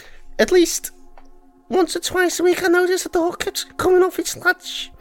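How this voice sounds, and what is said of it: Put-on Liverpool accent. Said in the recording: “Oh, is that Liverpool? Yeah, accent ... Meant to be, aye ... I think that's quite good. I think they'll be quite impressed.”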